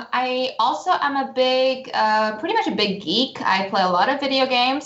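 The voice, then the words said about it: Mixed, hard-to-place accent. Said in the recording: “my accent is all over the place”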